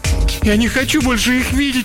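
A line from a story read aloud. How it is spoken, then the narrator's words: Sobbing. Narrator (Russian): всхлипывал Барри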